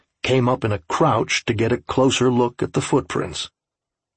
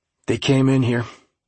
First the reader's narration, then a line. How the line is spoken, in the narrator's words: he said flatly